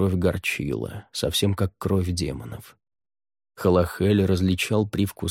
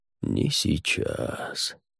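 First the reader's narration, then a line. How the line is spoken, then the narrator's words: Purred. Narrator (Russian): промурлыкал он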